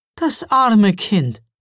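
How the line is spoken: Christmas woman calling out. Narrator (German): rief die Weihnachtsfrau

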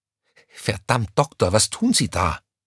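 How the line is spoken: Panicked hiss. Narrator (German): zischte Crescentia Rausch ihm panisch hinterher

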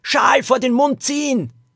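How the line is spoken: Calling out. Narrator (German): rief Lilo

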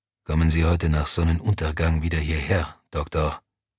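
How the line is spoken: Quiet. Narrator (German): sagte leise

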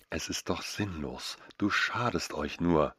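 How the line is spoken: Soft gentle murmur. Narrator (German): raunte mit meiner sanftesten Stimme zu

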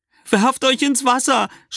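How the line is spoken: Woman screaming. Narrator (German): schreit eine Frau

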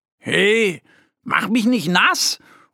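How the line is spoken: Little bear calling out. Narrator (German): ruft ihr Freund, der kleine Bär Mo

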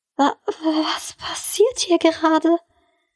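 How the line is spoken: Stammering disbelief. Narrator (German): stammelte sie ungläubig

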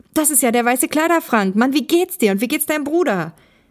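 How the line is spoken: Joyful exclamation. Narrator (German): rief Thomas erfreut aus

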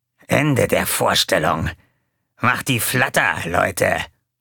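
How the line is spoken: Growled. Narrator (German): knurrte

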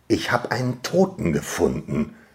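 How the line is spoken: Quiet, then growing excitement. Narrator (German): sagte ich leise, mehrmals, aber dann mit wachsender Begeisterung

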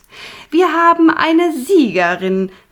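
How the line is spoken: Called out by chief witch. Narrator (German): rief Punica Granata, die Oberhexe

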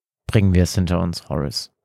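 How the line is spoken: Firm voice. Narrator (German): fügte er mit fester Stimme hinzu

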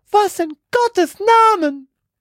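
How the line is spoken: Horrified shriek. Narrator (German): kreischte sie und sackte vor Entsetzen auf die Knie

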